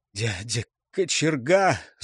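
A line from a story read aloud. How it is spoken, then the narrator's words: Hoarse wheeze. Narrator (Russian): захрипел Светил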